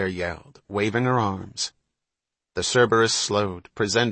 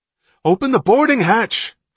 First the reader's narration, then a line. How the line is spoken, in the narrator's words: Hatch yelled